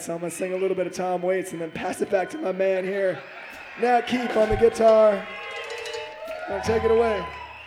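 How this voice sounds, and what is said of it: Strained, unwell-sounding voice. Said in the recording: “My voice is having a tough time tonight ... His voice is really not feeling good.”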